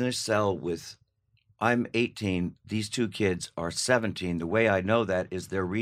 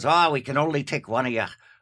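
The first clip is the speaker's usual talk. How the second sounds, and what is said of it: Put-on English-Irish accent. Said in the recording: “That's my English, Irish accent.”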